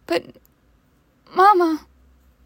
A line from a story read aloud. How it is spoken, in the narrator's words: I whimpered